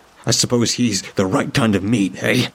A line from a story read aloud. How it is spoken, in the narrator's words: I spat the words at him, no longer afraid